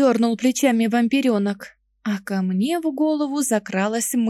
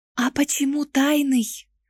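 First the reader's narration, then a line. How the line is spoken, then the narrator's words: Close whisper. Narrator (Russian): Зашептала, склонив голову ближе к Бэку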